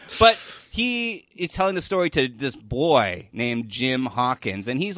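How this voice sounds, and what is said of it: Usual voice. Nothing is said of it.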